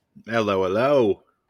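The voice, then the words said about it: Put-on British accent greeting. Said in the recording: “Are we British now? ... We're going for a British accent? ... That's the extent of my accents”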